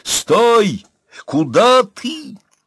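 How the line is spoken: Yelling. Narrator (Russian): Завопил

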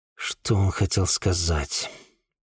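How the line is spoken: Muttering to himself. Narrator (Russian): пробормотал я себе под нос

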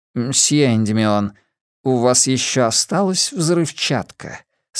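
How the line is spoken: Plain. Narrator (Russian): спросил Абеттик

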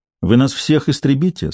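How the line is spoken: Calm question. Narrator (Russian): спокойно спросил Иеремия

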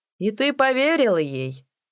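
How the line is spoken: Drowsy, delirious laughter. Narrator (Russian): рассмеялся Дип, который едва ли не бредил уже в полусне

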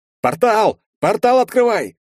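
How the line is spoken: Yelling into ear. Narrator (Russian): заорал я на ухо магу

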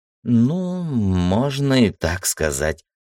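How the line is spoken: Doubtful drawl. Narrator (Russian): сомнением протянула Ира

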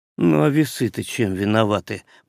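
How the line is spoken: Grumbled. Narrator (Russian): проворчал шкипер

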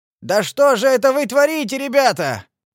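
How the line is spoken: Shout. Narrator (Russian): крикнул он

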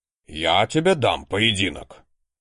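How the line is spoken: Sudden loud bark. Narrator (Russian): гаркнул обычно не повышающий голос библиотекарь

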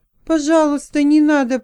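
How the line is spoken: Moaned. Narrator (Russian): простонала

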